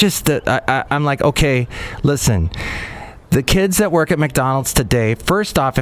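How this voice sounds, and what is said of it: Usual voice. Nothing is said of it.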